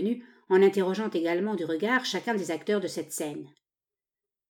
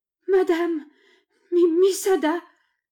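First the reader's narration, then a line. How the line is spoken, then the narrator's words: Servant stammering. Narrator (French): balbutia la servante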